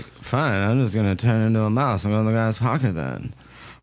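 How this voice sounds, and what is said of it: Imitates another person's voice. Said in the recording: “my impression of Matt”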